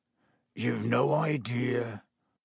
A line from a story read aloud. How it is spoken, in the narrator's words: said Hagrid quietly